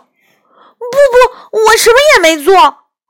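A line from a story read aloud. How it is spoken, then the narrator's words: Shouting. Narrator (Chinese): 杨永乐大叫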